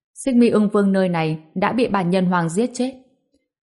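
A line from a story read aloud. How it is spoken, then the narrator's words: Raised voice. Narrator (Vietnamese): Ngô Bình cao giọng nói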